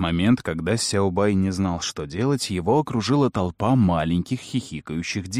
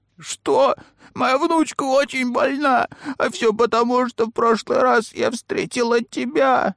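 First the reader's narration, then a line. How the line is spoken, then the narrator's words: Sobbing. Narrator (Russian): Снова разрыдалась женщина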